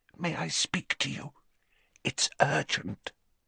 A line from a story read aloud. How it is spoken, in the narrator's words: she said in a strained whisper